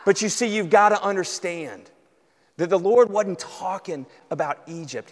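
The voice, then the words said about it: Southern American accent. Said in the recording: “you got a southern accent”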